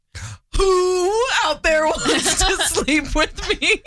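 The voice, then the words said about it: Owl-like impression of another person. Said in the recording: “this is my impression of an owl. ... But the owl is Slacker.”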